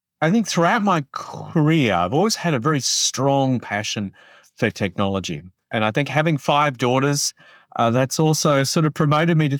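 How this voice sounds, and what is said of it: Australian accent. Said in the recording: “I grew up in Australia, so I do have an accent.”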